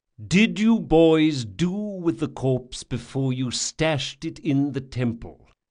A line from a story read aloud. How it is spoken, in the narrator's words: said Chains, speaking slowly as though to a misbehaving pet